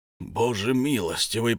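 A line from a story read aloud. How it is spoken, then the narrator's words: Moaning. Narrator (Russian): простонал Бьорн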